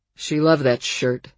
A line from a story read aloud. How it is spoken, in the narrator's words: Hank muttered